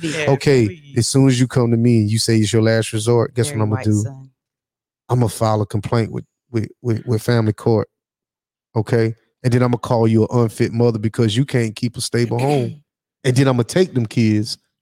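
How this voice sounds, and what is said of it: Put-on deep voice. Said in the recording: “Let me get a deep voice.”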